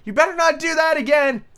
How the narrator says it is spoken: she said to herself and shouted

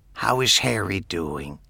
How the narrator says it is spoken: whispered

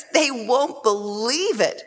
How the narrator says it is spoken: she laughed

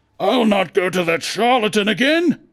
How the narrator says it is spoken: roared Clagett

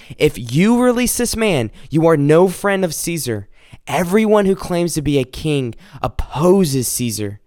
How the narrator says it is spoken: the Jewish leader shouted out

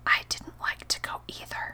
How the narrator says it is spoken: I dropped my voice to a whisper and said

